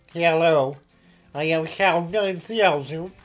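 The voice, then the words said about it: Robotic computer voice. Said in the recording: “I now speak in robot voice.”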